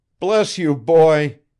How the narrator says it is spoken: he exclaimed

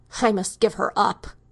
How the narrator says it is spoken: he repeated harshly

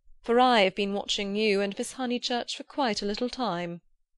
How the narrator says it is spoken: said the chaplain blandly

